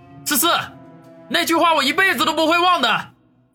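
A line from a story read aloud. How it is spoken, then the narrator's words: Loud. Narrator (Chinese): 王宇大声的说道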